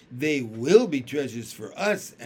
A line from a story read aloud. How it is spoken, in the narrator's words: answered Jessie, laughing